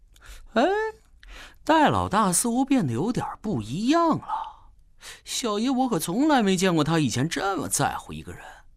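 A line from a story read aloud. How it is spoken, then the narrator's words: Muttering. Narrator (Chinese): 马红俊嘟囔着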